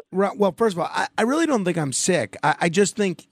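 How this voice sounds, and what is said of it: Strained, overused voice. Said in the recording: “my voice is strained from overuse.”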